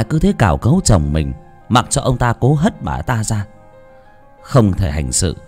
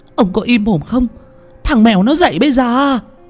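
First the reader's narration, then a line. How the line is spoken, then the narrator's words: Hissing shriek. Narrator (Vietnamese): Bà ta rít lên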